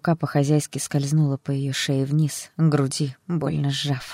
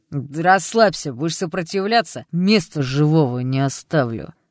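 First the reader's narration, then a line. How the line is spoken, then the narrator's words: Growling. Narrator (Russian): прорычал один из них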